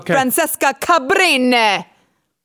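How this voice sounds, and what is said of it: Put-on Italian accent. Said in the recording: “judge my Italian accent ... It's marvelous, darling.”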